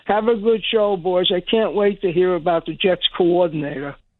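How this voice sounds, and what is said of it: Sarcastic tone. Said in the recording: “some sarcasm from ... there ... There was sarcasm there. There's no question about it.”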